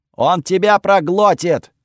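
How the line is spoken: Yelling. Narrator (Russian): орал Готфред

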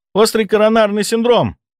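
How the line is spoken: Shouting. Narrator (Russian): выкрикнула Ольга

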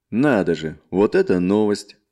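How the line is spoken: Chuckling merchant. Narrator (Russian): хохотнул торговец

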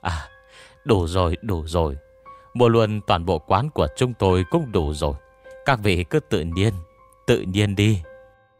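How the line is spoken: Trembling shopkeeper. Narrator (Vietnamese): Chủ quán run rẩy nói

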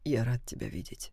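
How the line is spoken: Whispered. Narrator (Russian): прошептал

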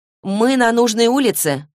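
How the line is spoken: Shouting from a distance. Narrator (Russian): крикнула Изабель, идущая на четверть квартала впереди

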